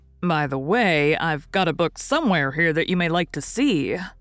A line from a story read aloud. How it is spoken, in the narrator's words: said the oldest boy of the party